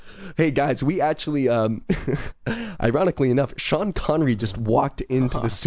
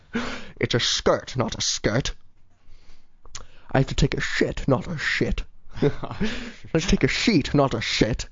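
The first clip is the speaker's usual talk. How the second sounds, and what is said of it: Poor imitation of another person's voice. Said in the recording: “Just Sean Connery. ... I do a terrible Sean Connery impersonation.”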